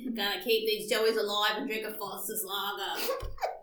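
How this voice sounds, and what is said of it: Poor put-on Australian accent. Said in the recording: “All the Aussies and Kiwis are gonna be like ... I have a terrible accent”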